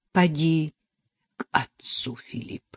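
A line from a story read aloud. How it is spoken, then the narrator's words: Trembling, tired. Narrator (Russian): произнесла она дрожащим усталым голосом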